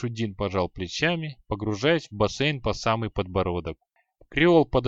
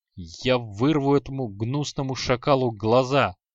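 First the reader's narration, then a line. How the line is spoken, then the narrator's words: Growl. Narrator (Russian): прорычал Креол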